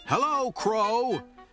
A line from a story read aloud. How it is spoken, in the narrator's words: shouted Toad